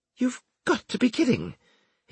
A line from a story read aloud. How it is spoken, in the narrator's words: he exclaimed